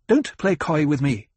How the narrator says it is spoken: she snapped

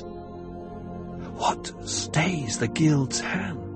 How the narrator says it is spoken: Jessica whispered

